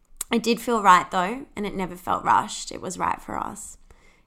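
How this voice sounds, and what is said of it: Australian accent. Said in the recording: “I'm Australian, if you can't tell from the accent.”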